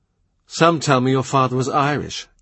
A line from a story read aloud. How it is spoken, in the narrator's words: Estache says